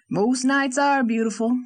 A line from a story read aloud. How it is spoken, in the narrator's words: said Captain Jim